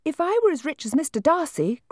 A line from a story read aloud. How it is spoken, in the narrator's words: cried a young Lucas